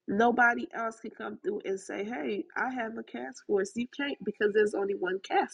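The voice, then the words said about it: Haitian and Southern American accent. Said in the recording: “my accent, the combination of my Haitian accent with my Southern accent, in the Americanness of me”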